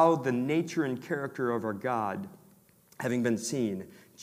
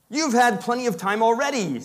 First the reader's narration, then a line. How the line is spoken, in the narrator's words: said the Tin Woodman angrily